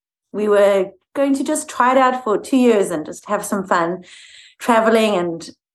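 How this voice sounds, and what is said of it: South African accent. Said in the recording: “is not from the States ... Let's hear that beautiful accent ... I am originally from South Africa.”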